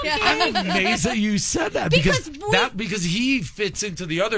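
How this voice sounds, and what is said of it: Usual voice. Nothing is said of it.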